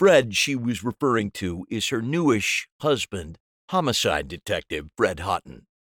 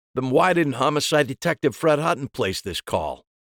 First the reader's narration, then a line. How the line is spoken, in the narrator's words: My voice came out thicker than anticipated